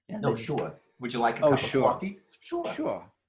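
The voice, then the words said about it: Put-on New York accent. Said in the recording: “my New York dialect was good ... that's a pretty extreme accent”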